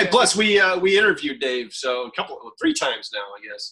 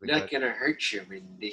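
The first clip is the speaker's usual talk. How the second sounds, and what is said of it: Jack Nicholson impression from The Shining. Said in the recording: “That's a pretty good impression”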